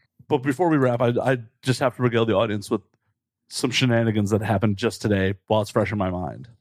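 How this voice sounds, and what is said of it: Usual voice. Nothing is said of it.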